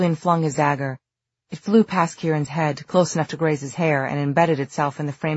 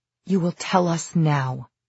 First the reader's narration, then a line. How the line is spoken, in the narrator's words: he said in a deadly quiet voice